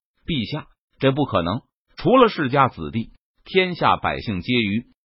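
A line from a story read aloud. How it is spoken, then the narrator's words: Stern, sharp. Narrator (Chinese): 陈宇 他厉声说道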